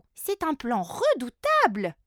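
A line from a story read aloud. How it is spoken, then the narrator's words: Exclaiming. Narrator (French): s'exclame Flora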